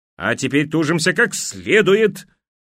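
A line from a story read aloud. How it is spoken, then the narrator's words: Loud bark. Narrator (Russian): гаркнула Вартик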